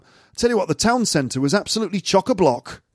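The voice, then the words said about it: Generic northern English accent. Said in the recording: “I don't know why I'm doing a sort of generic northern accent, but I am.”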